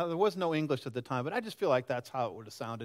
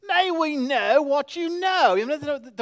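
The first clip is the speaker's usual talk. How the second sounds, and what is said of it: Haughty put-on British accent. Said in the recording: “that real haughty, you know, um, scholarly tone ... it has to be English, too ... You have to have kind of a British accent ... It's kind of arrogant.”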